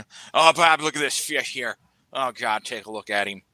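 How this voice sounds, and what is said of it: Exaggerated northern accent. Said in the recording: “He had the most northern accent possible. It's like a caricature of a northern.”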